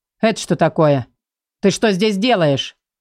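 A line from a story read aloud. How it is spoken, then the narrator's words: Menacing shout. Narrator (Russian): Грозно кричу я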